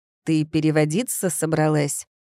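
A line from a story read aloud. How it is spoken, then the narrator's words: Growl. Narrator (Russian): прорычал он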